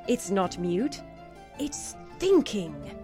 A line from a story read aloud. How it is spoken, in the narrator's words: exclaimed the team lead